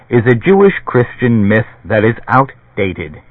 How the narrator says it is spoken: Barris said, chuckling

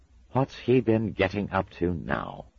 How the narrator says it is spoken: he sighed, not really expecting an answer

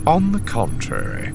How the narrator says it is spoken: Thrawn countered coolly

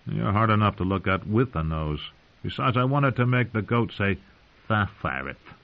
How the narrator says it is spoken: chuckled

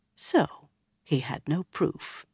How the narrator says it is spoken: he murmured in a satisfied tone

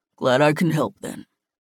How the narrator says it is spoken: he rumbled

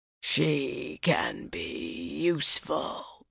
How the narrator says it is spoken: the Murdral rasped

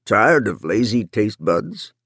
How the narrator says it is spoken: Runciter said in his familiar gravelly voice

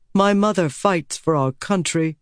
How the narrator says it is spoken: he said

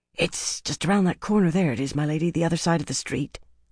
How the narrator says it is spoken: Hark said in a near whisper

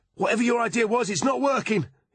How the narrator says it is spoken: he cried

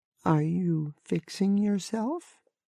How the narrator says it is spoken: Sarah asked timidly

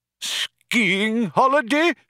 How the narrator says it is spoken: cried the old man

